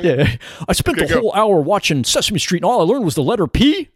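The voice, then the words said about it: Impression of a TV puppet character. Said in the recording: “going to do an Alf impression,”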